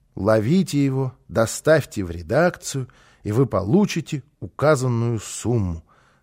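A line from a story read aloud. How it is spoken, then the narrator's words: Reading aloud, then sighing. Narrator (Russian): закончил он чтение и вздохнул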